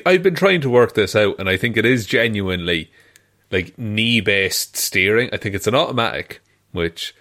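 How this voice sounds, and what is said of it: Regional accent, dropped T sounds. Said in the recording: “the most my accent I've ever been, because I said automatic. Like, there was no T's in that at all.”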